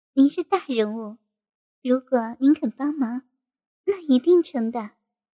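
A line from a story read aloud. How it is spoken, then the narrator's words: Charming, low voice. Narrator (Chinese): 燕飞雪妩媚的一笑，低声说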